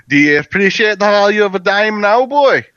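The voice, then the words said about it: Poor put-on Scottish accent. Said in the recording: “Please don't do a Scottish accent. Like, you can't do one.”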